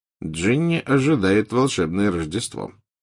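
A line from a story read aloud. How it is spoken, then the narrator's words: Mumbling. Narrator (Russian): пробормотал Фред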